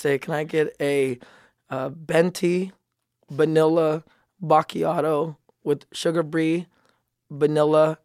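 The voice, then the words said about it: Put-on Filipino accent. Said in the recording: “You're just Filipino right now. ... I just went Asian. My Filipino accent is about as good as my selection in foods.”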